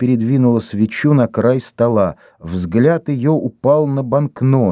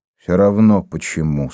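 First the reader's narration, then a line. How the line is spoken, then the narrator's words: Tired. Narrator (Russian): сказал Дембо устало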